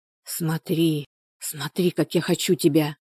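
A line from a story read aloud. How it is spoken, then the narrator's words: Whispering. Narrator (Russian): шептал он ей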